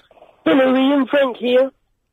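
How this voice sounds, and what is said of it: Frank Spencer character impression. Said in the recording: “doing a Frank Spencer impression.”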